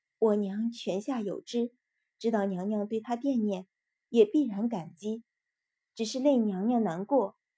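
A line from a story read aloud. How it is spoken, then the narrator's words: Gentle, restrained. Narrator (Chinese): 心头突的一跳 终于又忍住，柔声道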